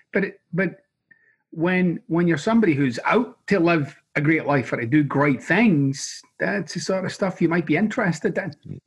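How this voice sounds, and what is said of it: Hybrid, half-Scottish accent. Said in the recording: “I'm from Glasgow, uh, Scotland, but I have this hybrid accent now. I'm kind of half, half Scottish.”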